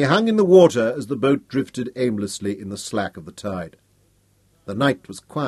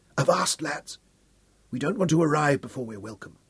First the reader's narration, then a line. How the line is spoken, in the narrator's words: Hal whispered